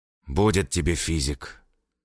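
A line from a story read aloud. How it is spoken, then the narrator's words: Sighing. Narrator (Russian): вздохнул Алексеев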